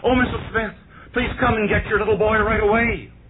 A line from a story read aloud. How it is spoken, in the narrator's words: Teufelsdruck's nurse, who said excitedly